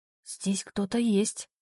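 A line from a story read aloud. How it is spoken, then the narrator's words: Whisper. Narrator (Russian): шепотом сказала она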